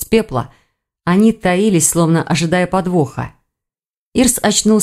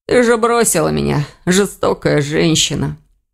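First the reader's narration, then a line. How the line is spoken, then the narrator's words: Hoarse, coughing. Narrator (Russian): Сипло закашлялся Элгар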